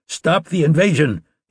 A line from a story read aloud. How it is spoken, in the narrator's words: he shouted